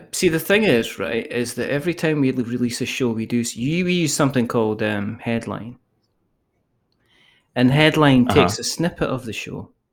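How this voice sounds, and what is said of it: Scottish accent. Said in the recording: “because I've got a Scottish accent”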